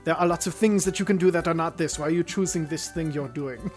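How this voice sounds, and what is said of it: Slight put-on German accent. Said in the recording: “with a, a, slightly German accent”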